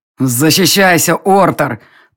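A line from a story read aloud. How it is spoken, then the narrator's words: Growled. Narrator (Russian): прорычал Элга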